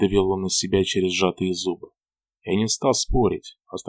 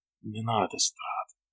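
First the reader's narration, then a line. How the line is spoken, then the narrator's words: Whispered. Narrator (Russian): прошептал он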